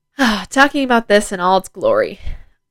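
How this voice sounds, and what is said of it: Sarcastic tone. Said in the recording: “That was sarcasm, by the way.”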